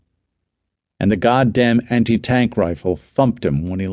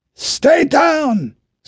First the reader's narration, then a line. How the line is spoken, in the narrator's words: Sergeant Benjamin Halevi shouted from right behind Jacek